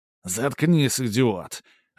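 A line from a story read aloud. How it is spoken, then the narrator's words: Irritated bark. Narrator (Russian): раздраженно рявкнул тот в ответ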